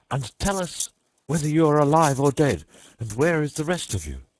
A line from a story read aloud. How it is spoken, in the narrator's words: he cried